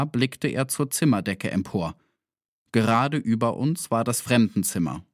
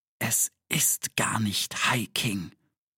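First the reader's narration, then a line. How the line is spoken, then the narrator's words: Whisper. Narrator (German): flüsterte Harald jetzt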